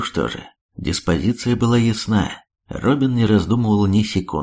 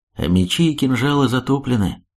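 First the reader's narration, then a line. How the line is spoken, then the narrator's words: Sad. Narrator (Russian): грустно промолвил Векша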